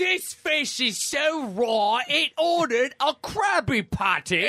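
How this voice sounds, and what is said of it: Usual voice. Nothing is said of it.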